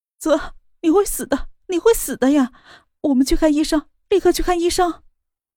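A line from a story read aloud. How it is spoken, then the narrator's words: Crying. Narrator (Chinese): 莫雨涵 哭着道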